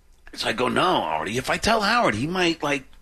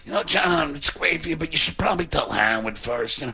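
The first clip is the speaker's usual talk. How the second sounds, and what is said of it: Poor imitation of another person's voice. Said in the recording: “A bad Artie impression, I know.”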